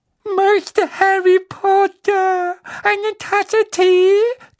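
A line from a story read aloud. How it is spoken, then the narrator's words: Loud squeak over sobbing. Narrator (German): quiekte er laut über Winkys Schluchzen hinweg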